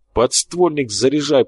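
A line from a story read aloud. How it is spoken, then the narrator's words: Hiss. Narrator (Russian): прошипел Борхес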